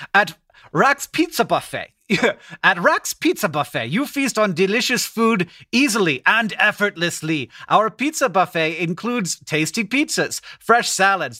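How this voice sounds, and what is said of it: Poor attempt at German accent. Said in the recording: “So I'm going to read it to you in a German accent. ... This isn't German at all. ... No, it's not even.”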